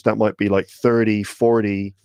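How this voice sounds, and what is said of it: Good put-on American accent. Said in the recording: “You have a good American accent there”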